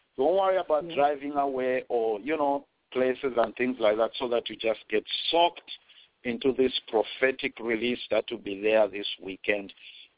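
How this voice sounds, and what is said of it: Zambian accent. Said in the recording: “my Zambian accent”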